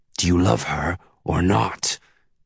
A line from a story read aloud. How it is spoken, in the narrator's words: He hisses